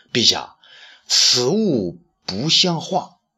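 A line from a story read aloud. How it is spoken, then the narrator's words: Slow drawling speech. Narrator (Chinese): 东方朔慢吞吞地说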